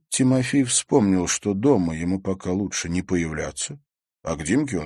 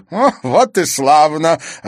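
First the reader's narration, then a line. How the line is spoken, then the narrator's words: Delighted. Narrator (Russian): обрадовался он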